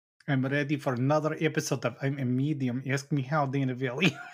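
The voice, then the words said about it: Put-on accent. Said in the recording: “I didn't know we were doing accents this episode ... alter ego when he wants to talk in his accent”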